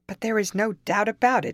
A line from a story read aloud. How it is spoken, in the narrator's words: exclaimed, trembling for the fate of the beautiful little creatures